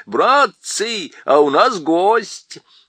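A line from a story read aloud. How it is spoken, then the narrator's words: Shouted. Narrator (Russian): Дафул крикнул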